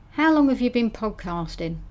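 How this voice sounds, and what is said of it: Convincing put-on British accent, Australian-tinged. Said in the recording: “do a really good impression of a British accent ... That is uncanny. Are you sure you're not British? Or indeed Australian, which is what that kind of sounded like too”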